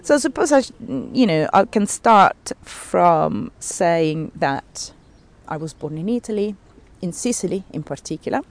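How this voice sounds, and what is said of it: Italian-accented English. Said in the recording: “all my Italian accent”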